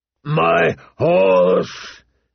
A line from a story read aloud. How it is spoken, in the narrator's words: he gasped